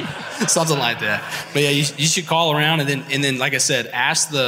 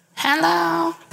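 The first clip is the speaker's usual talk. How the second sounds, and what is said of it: Old lady voice. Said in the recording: “your old lady voice”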